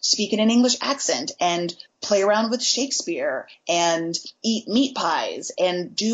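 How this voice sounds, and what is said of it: Usual voice. Nothing is said of it.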